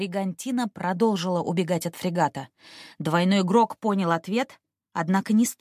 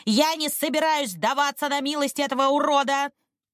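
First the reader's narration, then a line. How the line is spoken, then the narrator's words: Shouting. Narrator (Russian): Лупоглазый крикнул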